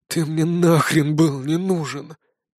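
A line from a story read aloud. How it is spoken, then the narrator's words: Shaman's hoarse wheeze. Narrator (Russian): просипел шаман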